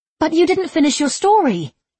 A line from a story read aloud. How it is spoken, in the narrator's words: she blurted